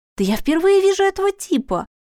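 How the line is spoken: Young girl exclaiming. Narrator (Russian): воскликнула маленькая блондинка, на вид немного старше Дениса

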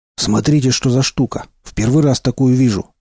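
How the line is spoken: Joyful exclamation. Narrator (Russian): радостно воскликнул Молчун

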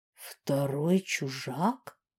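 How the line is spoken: Shocked mutter. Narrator (Russian): потрясенно пробормотал Сьят

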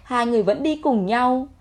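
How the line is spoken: Cold. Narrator (Vietnamese): Anh lạnh lùng nói

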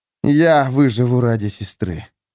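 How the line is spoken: Through gritted teeth. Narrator (Russian): процедил Эрвин

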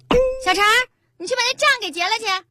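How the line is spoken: Busy, offhand. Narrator (Chinese): 老板娘手头正忙着呢，就对旁边的一小弟说了一句

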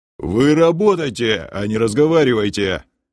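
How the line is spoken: Grumbling guard. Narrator (Russian): Заворчал стражник

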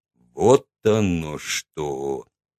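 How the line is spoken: Slow speech. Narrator (Russian): сказал он медленно

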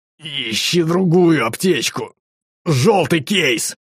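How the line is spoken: Growl. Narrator (Russian): Тот зарычал

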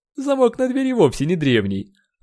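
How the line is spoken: Snorting. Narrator (Russian): хмыкнул Бёрнс

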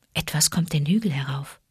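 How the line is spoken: Whisper. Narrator (German): flüsterte Mutter Wolf

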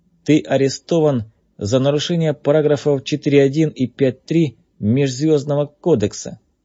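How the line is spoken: Bored, flat. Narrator (Russian): скучным голосом сообщил Кей

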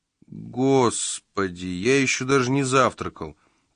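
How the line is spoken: Groan. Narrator (Russian): простонал детектив Петерсон

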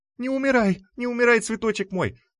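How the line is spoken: Loud sobbing. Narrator (Russian): вновь в голос разрыдалась ветерок

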